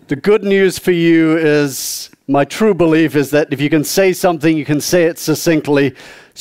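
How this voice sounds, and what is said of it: Southern English accent. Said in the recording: “I'm a southerner ... I was born and raised uh, in the southeast of England.”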